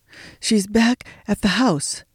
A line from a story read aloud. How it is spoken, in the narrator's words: gasped Denver, out of breath in the cold, dry air